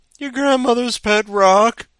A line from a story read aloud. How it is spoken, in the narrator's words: she cried